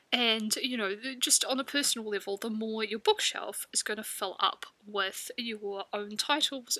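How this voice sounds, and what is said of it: Stuffy, nasal voice from a cold. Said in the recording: “my voice is a bit stuffy today, so I've got a bit of a cold, ... hoping it's not going to sound too nasally and too blah”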